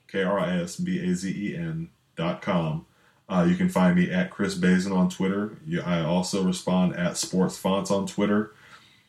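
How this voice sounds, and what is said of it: Smooth radio voice. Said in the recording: “you might think my voice is sexy ... you got a little bit of a radio voice going there”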